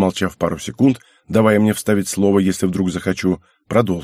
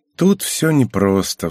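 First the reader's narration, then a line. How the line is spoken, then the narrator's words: Sigh. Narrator (Russian): вздохнул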